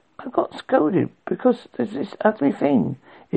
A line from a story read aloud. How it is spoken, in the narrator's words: Ico mumbled out of herself